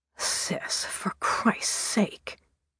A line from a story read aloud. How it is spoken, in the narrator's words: muttered Tony